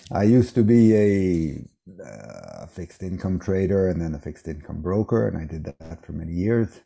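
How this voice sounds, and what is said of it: American accent. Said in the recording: “as you might hear from my voice, I grew up in the US, in America”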